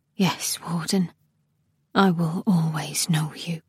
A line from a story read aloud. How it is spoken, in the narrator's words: She said quietly